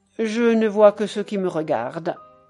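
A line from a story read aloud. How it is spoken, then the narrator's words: Curt. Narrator (French): dit Gertrude d'un ton bref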